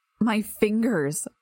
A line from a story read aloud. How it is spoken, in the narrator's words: moaned